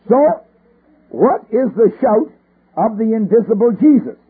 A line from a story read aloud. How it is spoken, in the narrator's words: He says, a shout